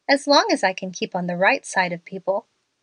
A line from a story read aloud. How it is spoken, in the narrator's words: remarked Carrie quietly